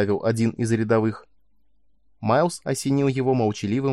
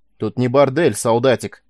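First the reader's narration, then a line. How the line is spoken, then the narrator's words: Bark. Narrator (Russian): рявкнул сержант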